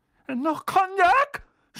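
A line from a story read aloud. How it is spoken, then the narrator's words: Pale, frightened shout. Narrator (German): schrie Onkel Vernon, der käseweiß geworden war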